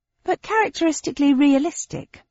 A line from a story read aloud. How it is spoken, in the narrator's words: I said cheerfully